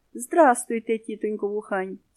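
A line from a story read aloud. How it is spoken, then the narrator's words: Plain. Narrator (Ukrainian): сказала мама їжачиха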